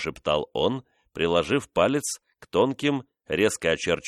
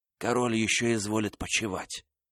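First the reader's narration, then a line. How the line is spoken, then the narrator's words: Whispered, passed along. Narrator (Russian): шепотом передавались из уст в уста среди группы людей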